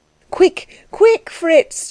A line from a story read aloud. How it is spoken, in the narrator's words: she cried